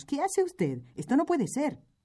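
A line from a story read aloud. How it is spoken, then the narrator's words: Group exclaiming. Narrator (Spanish): exclamamos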